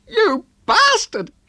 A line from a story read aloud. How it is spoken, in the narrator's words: she shrieked at the bewildered Ted